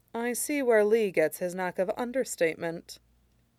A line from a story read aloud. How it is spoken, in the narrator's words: Shirong said dryly